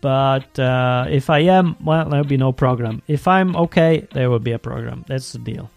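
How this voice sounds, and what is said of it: Voice sounds a little sick. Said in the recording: “I hopefully will not be sick next week, but I am a little bit now. You can probably hear it in my voice.”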